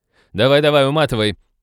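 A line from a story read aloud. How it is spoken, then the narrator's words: Mocking shout. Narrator (Russian): Глумливо крикнула Молли вслед киберу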